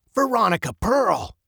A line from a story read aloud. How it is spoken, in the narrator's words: said sharply